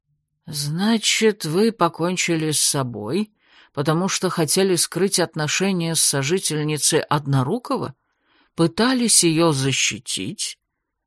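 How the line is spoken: Persistent muttering. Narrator (Russian): Не отставал с расспросами Фрис и буркнул себе под нос

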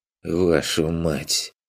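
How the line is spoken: Irritated whisper. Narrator (Russian): Только и смог прошептать раздраженный Аф

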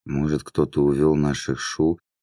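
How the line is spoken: Barely audible. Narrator (Russian): начала Таала едва слышно

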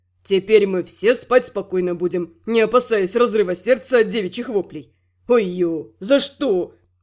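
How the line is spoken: Thief nearly howling. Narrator (Russian): Чуть не взвыл вор

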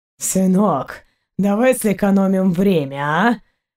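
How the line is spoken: Hoarse voice from above. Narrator (Russian): Хриплый голос Заури раздался над ними

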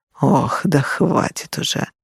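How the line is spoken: Weary, scolding. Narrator (Russian): бросил устало, как будто ребенка отчитывал

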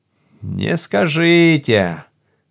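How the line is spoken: Grumble. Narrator (Russian): проворчал комиссар Гард

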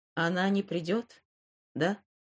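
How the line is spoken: Plain. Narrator (Russian): спросил он

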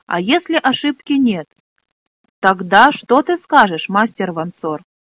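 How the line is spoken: Plain question. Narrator (Russian): спросил Флар

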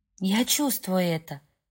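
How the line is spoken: Whispered. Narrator (Russian): прошептала Брук

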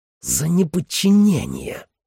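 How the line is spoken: Hissing. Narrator (Russian): прошипел Грант

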